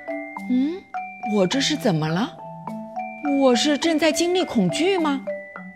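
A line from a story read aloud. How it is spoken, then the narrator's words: Murmuring. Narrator (Chinese): 阿布喃喃地说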